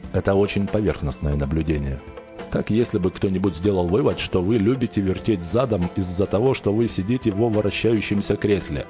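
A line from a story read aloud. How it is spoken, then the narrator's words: Laughing creature. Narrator (Russian): Светящееся существо засмеялось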